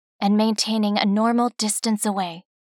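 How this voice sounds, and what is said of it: Whispering. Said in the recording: “Now I am whispering”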